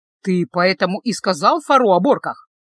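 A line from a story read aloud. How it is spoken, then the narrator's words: Snorted admiringly. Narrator (Russian): восхищенно фыркнул Люк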